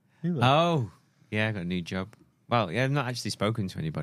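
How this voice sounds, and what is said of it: Croaky, hoarse voice. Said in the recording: “I think I'm losing my voice. ... You're a bit croaky.”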